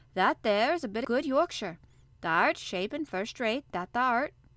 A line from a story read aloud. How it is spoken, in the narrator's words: cried Mary admiringly